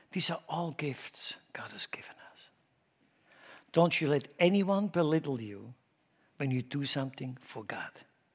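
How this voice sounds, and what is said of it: Non-native English accent. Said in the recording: “I never apologize for my accent ... Let's see what kind of accent you have ... I think now I have an accent in German”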